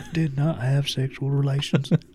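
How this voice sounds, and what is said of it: Imitates another person's voice. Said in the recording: “great Bill Clinton impersonation.”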